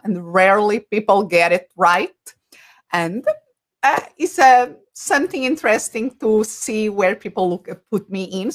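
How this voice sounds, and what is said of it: Portuguese accent. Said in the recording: “if people are wondering about my accent, that is the first thing that comes across ... I'm originally from Portugal.”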